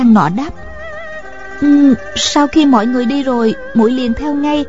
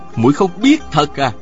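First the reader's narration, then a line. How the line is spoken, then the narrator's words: Cold, curt. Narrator (Vietnamese): Tào Vân Kỳ lạnh lùng sẵn giọng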